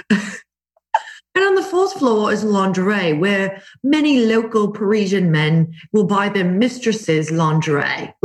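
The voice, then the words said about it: Put-on English accent. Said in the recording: “this is an English accent because I'm terrible at a French one”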